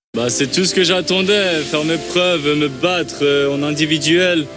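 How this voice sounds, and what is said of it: Swiss French accent. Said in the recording (French): “le flegme suisse ... avec son accent”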